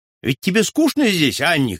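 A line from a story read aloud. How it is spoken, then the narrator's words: Shout. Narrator (Russian): крикнул ей брат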